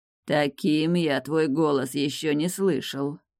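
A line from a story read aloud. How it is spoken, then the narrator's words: Grumbled. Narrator (Russian): пробурчал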